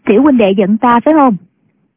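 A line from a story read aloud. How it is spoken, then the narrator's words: Young woman, smiling. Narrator (Vietnamese): Thiếu nữ mỉm cười nói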